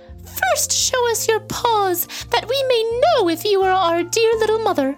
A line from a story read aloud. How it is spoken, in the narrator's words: The little goat kids cried